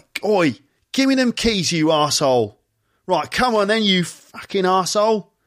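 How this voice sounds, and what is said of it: Put-on Cockney accent. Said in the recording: “most people speak with some sort of regional accent ... If you're a Cockney, it's like ... that doesn't sound too posh and proper, does it?”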